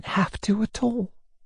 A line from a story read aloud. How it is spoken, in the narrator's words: she answered, hardly above a whisper